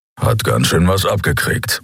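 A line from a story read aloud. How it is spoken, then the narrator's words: Grumbling. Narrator (German): brummte Keru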